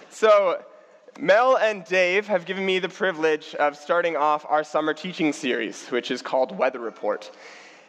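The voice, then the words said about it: Hoarse, croaky sick voice. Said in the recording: “apologize for my voice. I am a little sick today. The rainforest called this morning, and they asked to have some of their frogs back.”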